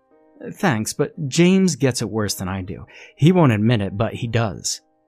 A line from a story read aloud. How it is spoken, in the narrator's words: Mary said